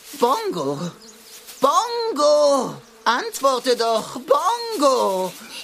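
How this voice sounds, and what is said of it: Shouting loudly. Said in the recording (German): “Schrei nicht so”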